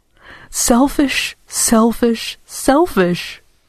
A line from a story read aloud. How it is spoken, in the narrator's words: cried Dora